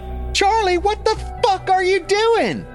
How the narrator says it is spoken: about to scream

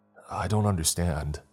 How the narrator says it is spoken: I said, my voice shaking

